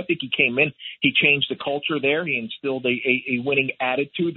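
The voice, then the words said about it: Slight Philadelphia accent. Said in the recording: “am I detecting some Philly in that accent a little bit?”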